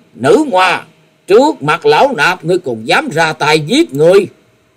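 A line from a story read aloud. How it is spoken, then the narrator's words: Angry old monk shouting. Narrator (Vietnamese): Thiếu Lâm Điền Tăng tức giận quát lớn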